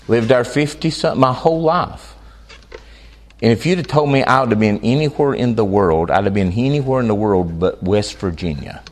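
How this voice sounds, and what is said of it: North Carolina Southern American accent. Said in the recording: “I'm from North Carolina, and you can probably tell. Some people say I have an accent.”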